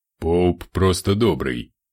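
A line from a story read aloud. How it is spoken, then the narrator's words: Snorting. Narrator (Russian): хмыкнул Ортанс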